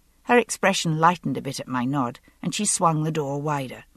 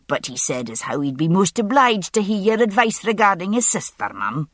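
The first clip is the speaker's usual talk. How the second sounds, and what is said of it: Broad Lowland Scottish accent. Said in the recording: “she said in a broad lowland accent.”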